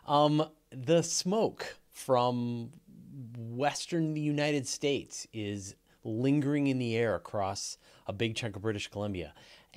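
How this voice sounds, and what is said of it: Froggy, hoarse voice. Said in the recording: “my voice is going to sound a little froggy today ... I'm definitely feeling a little mucky in my sinuses and throat. I've been a little hemmy.”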